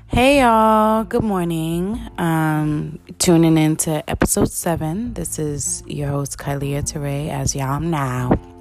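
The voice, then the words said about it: Low husky morning voice. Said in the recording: “I have my morning sexy voice on for y'all. I did not drink my warm water with lemon”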